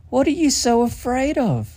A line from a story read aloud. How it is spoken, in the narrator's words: she cried